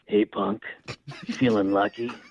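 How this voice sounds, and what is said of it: Clint Eastwood impression. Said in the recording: “a really good Clint Eastwood impression ... bust out the Clint”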